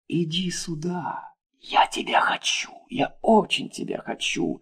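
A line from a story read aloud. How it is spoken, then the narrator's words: Whisper. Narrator (Russian): шептали его губы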